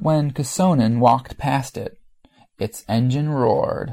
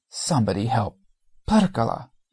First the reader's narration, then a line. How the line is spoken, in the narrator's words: swore with impotent rage, panting